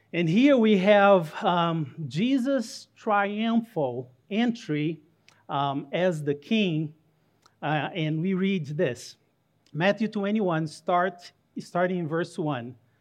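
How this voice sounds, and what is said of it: Brazilian Portuguese accent in English. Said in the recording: “you hear a little bit of an accent ... I'm Brazilian ... So the accent, it's Brazilian”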